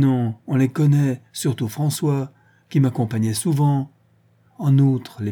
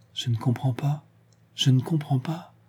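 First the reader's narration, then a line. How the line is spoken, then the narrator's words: Murmuring. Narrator (French): murmura la Bretonne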